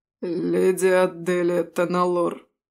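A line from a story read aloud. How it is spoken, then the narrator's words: Strangely hoarse voice. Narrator (Russian): странно хриплым голосом произнес один из полицейских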